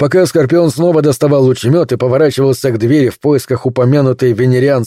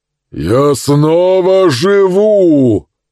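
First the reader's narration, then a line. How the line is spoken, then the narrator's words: Booming, foreign tongue. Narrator (Russian): объявил Забо зычным голосом, произнес он их на языке, неведомом Скорпиону и Мерлину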